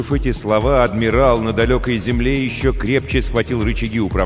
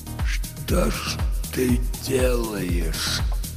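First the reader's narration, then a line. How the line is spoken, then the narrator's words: Whisper. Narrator (Russian): прошептал он, но это услышал только Хо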